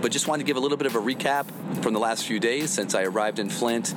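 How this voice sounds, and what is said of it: Slightly hoarse voice. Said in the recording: “my voice is a little hoarse, it's because I've been doing a lot of speaking this week”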